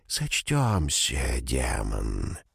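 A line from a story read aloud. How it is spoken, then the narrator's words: Quiet hiss. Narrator (Russian): Орпин тихо прошипел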